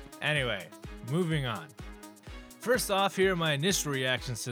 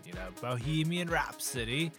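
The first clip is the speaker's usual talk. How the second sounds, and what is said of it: Put-on British accent. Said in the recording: “I feel like I have to say that in a British accent”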